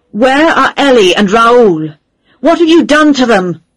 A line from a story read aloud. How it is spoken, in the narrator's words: I shouted